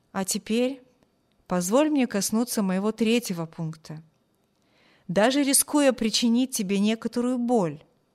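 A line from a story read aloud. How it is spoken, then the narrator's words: Plain. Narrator (Russian): сказал капитан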